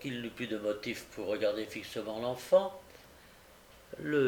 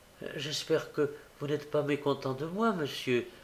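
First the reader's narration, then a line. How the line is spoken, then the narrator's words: Pleading. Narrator (French): dit en levant des yeux suppliants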